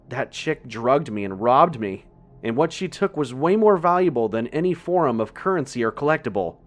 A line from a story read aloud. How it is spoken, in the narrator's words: shouted frantically